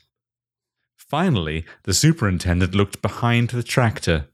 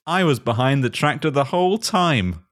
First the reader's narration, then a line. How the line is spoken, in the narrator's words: laughed Max Payne